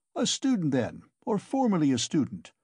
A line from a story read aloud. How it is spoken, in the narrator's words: cried the clerk